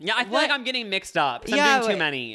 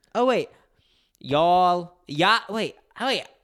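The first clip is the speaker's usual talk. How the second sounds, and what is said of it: Put-on Southern accent. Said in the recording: “how do you do a Southern accent?”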